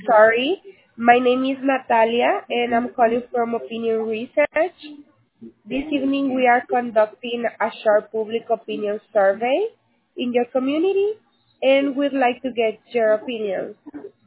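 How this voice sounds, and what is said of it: Hard-to-understand accent. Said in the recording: “I don't understand a word you're saying, ma'am. ... It was your dialect. ... I don't understand you anyway”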